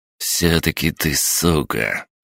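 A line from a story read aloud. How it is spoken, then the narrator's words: Furious hiss. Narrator (Russian): яростно прошипел Андрей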